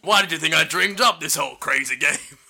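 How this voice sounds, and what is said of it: Imitates another person's voice. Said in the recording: “Was that a Ben impersonation? ... Sounded like a Ray Winston impersonation.”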